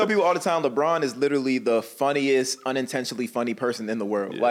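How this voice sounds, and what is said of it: Usual voice. Nothing is said of it.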